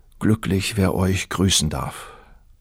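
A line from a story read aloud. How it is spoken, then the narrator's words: Young man's sigh. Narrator (German): seufzte der Bursche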